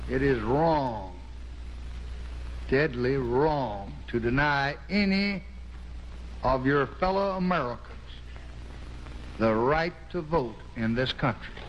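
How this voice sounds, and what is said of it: Texan accent. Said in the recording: “He's clearly a Texan by the sound of that accent.”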